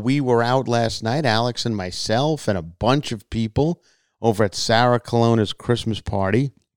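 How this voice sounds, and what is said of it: Worn, partly lost voice. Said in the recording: “my voice is a little bit gone, shot-ish, because it's post-party morning”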